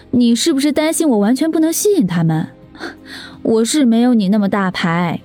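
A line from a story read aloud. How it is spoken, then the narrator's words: Sarcastic. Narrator (Chinese): 石佳丽一脸讽刺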